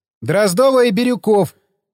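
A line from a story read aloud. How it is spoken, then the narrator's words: Shouted. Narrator (Russian): крикнула Настя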